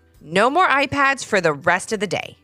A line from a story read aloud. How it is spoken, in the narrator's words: his mom said firmly